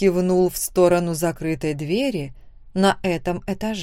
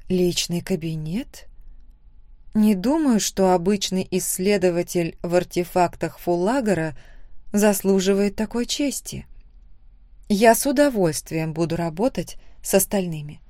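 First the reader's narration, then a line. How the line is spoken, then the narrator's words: Plain. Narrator (Russian): сказала я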